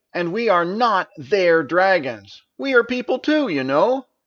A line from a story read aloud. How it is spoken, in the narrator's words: Nari angrily added